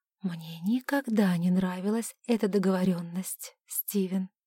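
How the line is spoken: Whispered. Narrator (Russian): прошептала

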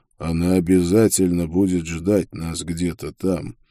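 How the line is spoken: Quiet. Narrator (Russian): тихо сказал мне Карл

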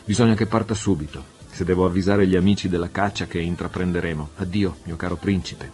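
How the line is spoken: Plain. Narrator (Italian): disse

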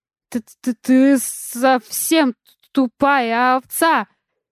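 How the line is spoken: Forced through chattering teeth. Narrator (Russian): выдавил сквозь стук зубов

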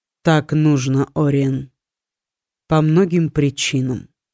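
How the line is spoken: Calm. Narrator (Russian): спокойно ответил Литтер

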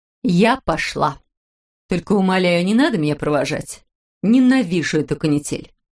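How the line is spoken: Firm voice. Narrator (Russian): произнесла она твердым голосом

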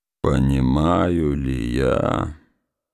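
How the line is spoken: Slow, breathless, forced out. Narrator (Russian): проговорил он медленно, задыхаясь, словно какая-то сверхъестественная сила вырвала у него эти слова

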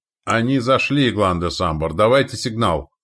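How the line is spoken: Excited shout. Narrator (Russian): возбужденно выкрикнул Святозар

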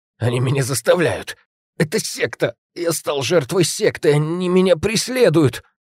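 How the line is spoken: Incoherent hoarse wheezing. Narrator (Russian): Бессвязно хрипел тот

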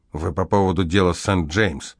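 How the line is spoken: Irritated question. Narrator (Russian): Шнайдер раздраженно спросил

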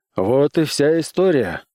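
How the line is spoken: Sighed. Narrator (Russian): вздохнул

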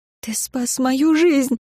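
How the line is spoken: Tearful reply. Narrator (Russian): ответила я сквозь слезы

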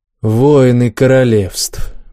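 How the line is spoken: Gloomy. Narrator (Russian): мрачно ответил Макс

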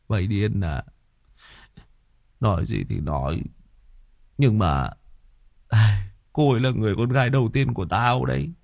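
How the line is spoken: Sighing. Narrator (Vietnamese): Thằng Quyết thở dài

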